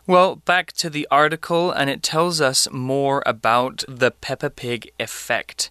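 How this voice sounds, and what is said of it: British accent. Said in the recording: “I just happen to speak with a British accent because that's where I was born and where I spent most of my childhood”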